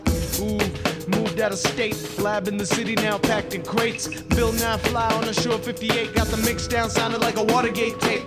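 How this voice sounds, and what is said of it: Rapping in American accent. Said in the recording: “You sound like an American.”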